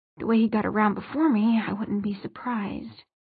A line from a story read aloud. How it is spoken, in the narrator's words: he added, half under his breath